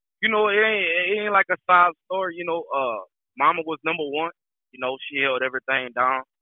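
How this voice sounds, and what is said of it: Southern US accent. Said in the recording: “I hear it in your accent, man. So you deep rooted in the South.”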